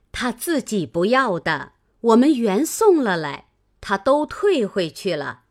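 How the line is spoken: Laughing, several voices. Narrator (Chinese): 王夫人、凤姐等都笑回说

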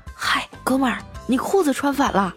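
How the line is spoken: Quiet reminder. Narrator (Chinese): 我小声的提醒他说

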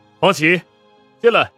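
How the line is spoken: Loud command. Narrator (Chinese): 宋时清没看到似的，高声对外面吩咐道

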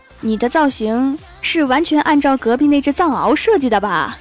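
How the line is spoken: Flat, indifferent. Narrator (Chinese): 郭大侠…淡淡的说

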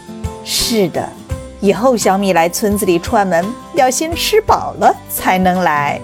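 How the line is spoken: Mother laughing. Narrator (Chinese): 妈妈笑着说

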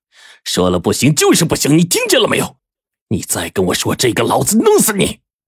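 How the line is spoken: Roaring. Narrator (Chinese): 黄队直接咆哮了

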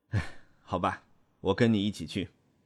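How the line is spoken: Sighing. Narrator (Chinese): 我叹一口气说

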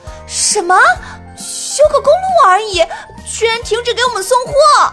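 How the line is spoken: Uncontrolled shout. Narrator (Chinese): 小表姐失控喊出来

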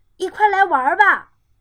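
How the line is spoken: Group shouting. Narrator (Chinese): 同学们喊道

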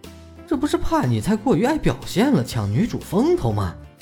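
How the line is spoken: Muttering grumble. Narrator (Chinese): 见他这副自恋的样子，小九嘀嘀咕咕的说道

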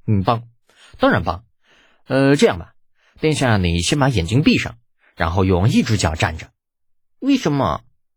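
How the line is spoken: Sobered, plain. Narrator (Chinese): 李浩收敛笑意，开口说道

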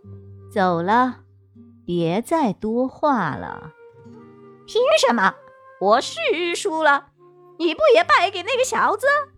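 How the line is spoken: Cold. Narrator (Chinese): 谢兰环冷冷地说

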